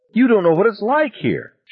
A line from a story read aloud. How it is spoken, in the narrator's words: she cried